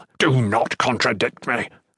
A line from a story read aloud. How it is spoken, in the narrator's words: Shertan growled